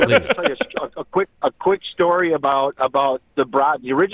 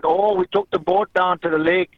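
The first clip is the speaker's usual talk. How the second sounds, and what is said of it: Exaggerated Sheboygan Wisconsin accent. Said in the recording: “proper Sheboygan ... I can go back to the accent if I have to”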